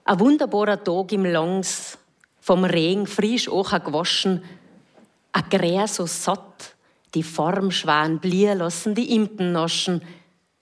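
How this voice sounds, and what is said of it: Tyrolean Kitzbühel-area dialect. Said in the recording (German): “hausen wir dialektmäßig ans andere Ende, nach Aurach bei Kitzbühel ... Die Mundartautorin”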